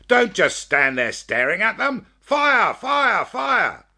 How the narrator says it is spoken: Colonel Waddy shout

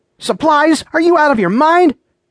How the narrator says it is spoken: shouted

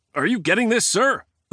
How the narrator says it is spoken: the soldier snapped into his communicator

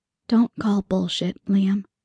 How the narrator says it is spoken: whisper

